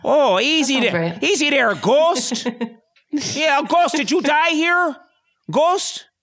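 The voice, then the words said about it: Put-on Fargo-style Minnesota accent. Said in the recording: “kind of like a Fargo accent ... that kind of accent from like the movie Fargo ... that's more like Fargo”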